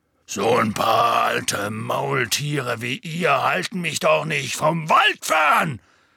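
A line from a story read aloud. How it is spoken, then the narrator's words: Loud. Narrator (German): sagte Hagrid laut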